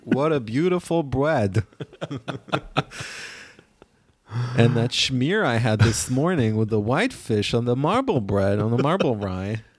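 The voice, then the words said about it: Elderly Lower East Side Jewish man voice. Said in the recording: “Are you doing ... Jew voice now? ... it's an impression of some of my students ... voice sounding like a octogenarian man from the Lower East Side”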